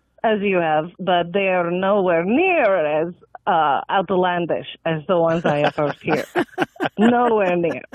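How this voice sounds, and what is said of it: Speaks with a foreign accent. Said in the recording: “I'm hearing an accent”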